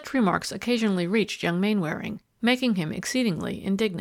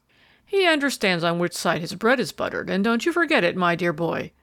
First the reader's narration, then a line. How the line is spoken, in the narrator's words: was the laughing rejoinder